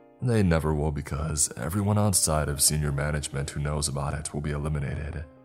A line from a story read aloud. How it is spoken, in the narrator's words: he said calmly